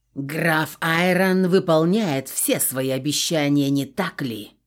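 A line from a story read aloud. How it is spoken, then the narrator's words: Growl. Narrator (Russian): прорычал граф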